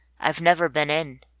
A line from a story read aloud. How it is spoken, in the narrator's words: he says